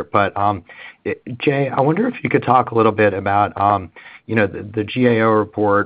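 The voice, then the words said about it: Slightly hoarse voice. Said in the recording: “I'm losing my voice a little bit here.”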